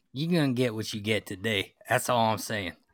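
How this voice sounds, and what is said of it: Put-on Southern accent. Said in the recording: “he's giving us this southern accent.”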